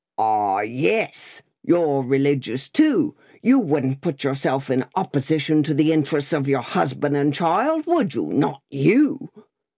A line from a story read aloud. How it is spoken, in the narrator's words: Growling